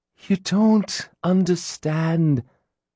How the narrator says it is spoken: Gillian said, sighing

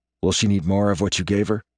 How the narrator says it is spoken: Leaning my head toward Shane's, I whisper under my breath

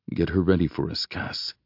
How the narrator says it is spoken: he murmurs

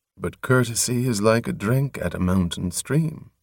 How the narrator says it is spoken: murmured Torm, grinning as if at a secret joke

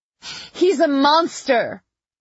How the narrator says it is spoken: she called out

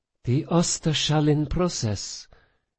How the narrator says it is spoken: Sophia breathed, betrayed by her own rising excitement

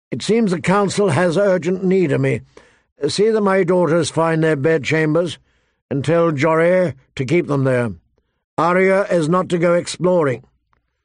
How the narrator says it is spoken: called out

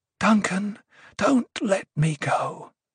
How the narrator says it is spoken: she whispered

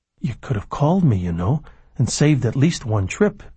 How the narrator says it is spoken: Billy said quietly

